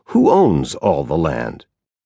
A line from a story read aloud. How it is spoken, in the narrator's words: solemnly asked